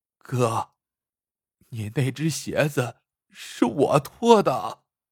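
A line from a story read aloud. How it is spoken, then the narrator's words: Choked with sobs. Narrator (Chinese): 二宝哽咽着说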